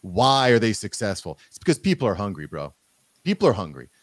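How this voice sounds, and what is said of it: Usual voice. Nothing is said of it.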